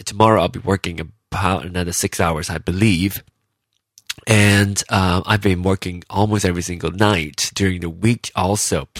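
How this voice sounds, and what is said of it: Tired, low voice. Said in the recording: “So I've been tired. So that's why my voice is a little low.”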